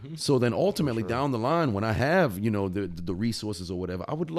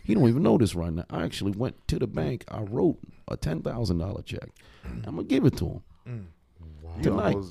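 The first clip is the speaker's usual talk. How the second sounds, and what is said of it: Lowered, quieter voice. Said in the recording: “I'm gonna lower my voice a little bit.”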